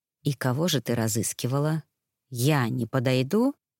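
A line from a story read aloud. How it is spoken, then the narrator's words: Whisper. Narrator (Russian): прошептал незнакомец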